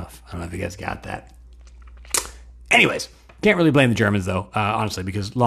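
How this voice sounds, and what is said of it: Usual voice. Nothing is said of it.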